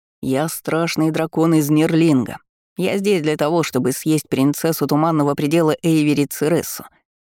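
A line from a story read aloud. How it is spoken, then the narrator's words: Sinister voice. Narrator (Russian): заявил Дункан зловещим голосом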